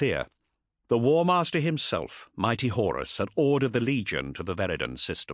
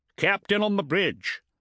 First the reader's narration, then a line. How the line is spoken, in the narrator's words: bellowed Ivan Cervantes, the ship's helmsmaster